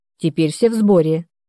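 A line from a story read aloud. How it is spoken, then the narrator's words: Calm. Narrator (Russian): спокойно ответил Артур Альбертович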